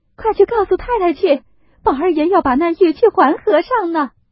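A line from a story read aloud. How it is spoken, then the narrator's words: Crying. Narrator (Chinese): 袭人哭道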